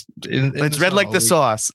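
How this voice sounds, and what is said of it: Put-on accent. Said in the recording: “That was a good accent.”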